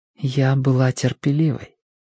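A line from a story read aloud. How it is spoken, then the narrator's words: Quiet. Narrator (Russian): тихо произнесла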